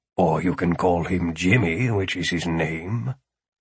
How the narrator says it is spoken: Philip muttered

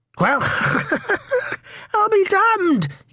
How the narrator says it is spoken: he said, laughing

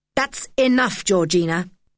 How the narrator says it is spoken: said her father angrily

